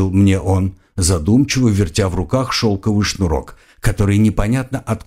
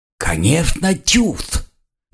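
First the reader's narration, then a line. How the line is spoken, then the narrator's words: Mocking wheeze. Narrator (Russian): насмешливо просипел Форсес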